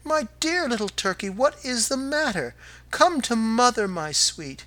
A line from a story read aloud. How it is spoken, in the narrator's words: she exclaimed